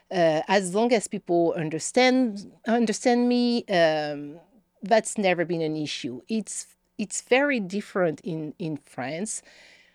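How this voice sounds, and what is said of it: Thick French accent. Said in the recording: “your accent. Like, I have a very thick accent.”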